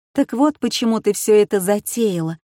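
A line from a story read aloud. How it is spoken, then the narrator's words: Timid question. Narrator (Russian): робко спросила Жозефина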